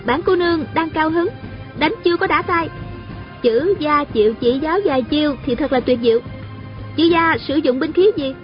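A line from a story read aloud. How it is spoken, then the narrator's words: Smiling. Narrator (Vietnamese): A Cửu mỉm cười nói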